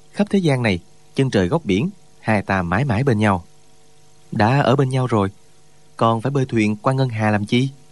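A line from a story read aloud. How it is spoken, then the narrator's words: Smiling. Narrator (Vietnamese): Trương Thúy Sơn mỉm cười nói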